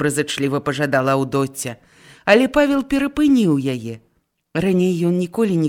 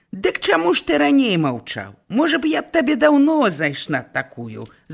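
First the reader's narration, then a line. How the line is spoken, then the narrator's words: Laughing. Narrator (Belarusian): засмяялася Аўдоцця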